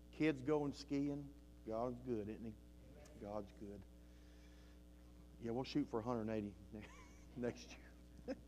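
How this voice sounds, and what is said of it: Southern accent. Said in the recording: “my southern little accent I have here”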